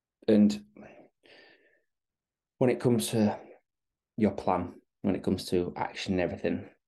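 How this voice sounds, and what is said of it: Very soft, quiet speech. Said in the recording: “I'm talking very softly.”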